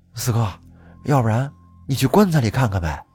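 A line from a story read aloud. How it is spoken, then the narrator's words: Quiet voice. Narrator (Chinese): 二叔小声的对四大爷说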